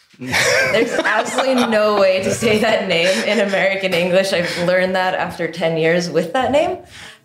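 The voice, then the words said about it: Speaks with a non-American accent. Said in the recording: “you go into a sexy accent”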